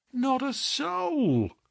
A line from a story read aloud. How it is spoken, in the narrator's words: groaned Hall Pycroft